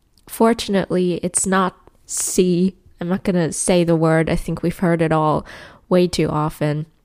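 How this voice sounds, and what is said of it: Sick voice with a cold. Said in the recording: “As you can tell by my voice, I'm a little bit sick ... a cold. A pretty bad one”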